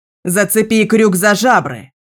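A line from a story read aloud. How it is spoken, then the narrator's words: Shouted. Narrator (Russian): крикнула Гара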